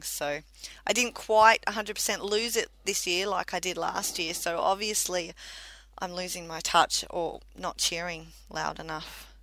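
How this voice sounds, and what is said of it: Slightly rough, hoarse voice. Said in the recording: “My voice is a little bit rough today because I did spend about 6 hours cheering runners on yesterday at the top of my lungs”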